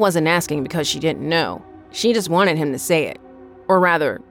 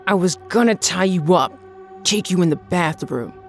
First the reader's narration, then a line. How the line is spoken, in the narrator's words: he growled